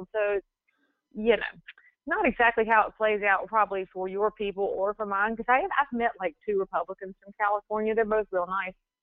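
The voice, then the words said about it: Southern American accent. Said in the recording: “it's my accent that colors me more than where I'm from ... Southerners ... somebody with a Southern accent”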